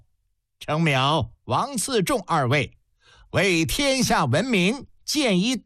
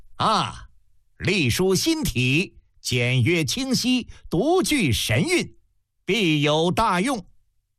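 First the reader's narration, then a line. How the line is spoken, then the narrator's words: Loud admiring exclamation. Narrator (Chinese): 嬴政皇帝 高声赞叹道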